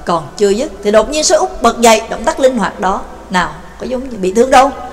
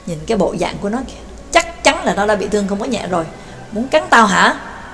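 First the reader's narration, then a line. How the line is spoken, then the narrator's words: Sneering. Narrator (Vietnamese): Tên đi trước cười khẩy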